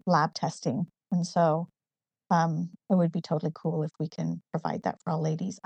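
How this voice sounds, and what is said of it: Slight northern English accent. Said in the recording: “I love your accent. It's so cute... I grew up in the northeast of England in a town called Newcastle. So I have a slightly more northern accent than a southern English accent... it kind of goes in and out”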